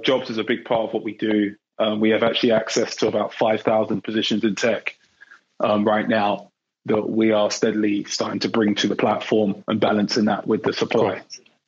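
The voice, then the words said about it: London English accent. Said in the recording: “you're not from the Bay Area, based on the amazing accent you're carrying... I grew up in England, born and bred in London”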